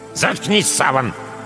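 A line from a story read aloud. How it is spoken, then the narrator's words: Grandmother's sharp shout. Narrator (Russian): прикрикнула на него бабушка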